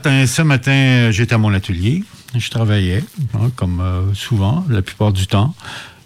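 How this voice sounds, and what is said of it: Quebecois French accent. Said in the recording (French): “D'où vient cet accent un peu curieux... l'accent, j'arrive du Québec”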